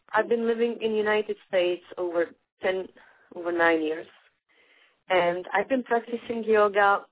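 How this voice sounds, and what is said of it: Czech accent. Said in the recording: “my accent, obviously, I am not Native American, so I am from Czech Republic originally, from Prague.”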